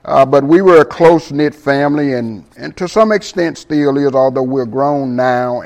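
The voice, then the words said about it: Southern US accent. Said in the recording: “as I'm sure you can tell by my accent, I'm originally from the South”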